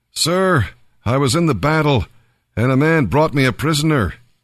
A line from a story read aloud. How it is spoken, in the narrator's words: the prophet called out to him